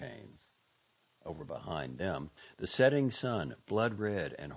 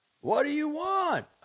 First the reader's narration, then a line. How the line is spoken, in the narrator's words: I cried hollowly